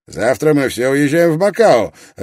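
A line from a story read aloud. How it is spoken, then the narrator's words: Sharp. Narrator (Russian): резко произнес Горд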